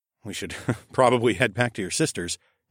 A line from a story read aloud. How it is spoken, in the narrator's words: I chuckled